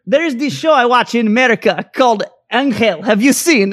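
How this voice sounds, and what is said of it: Deliberately poor Russian accent. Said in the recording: “I'm going to butcher a Russian accent now”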